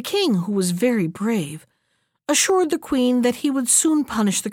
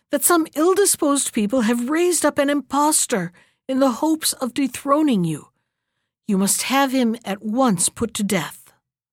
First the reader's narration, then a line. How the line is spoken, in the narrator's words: cried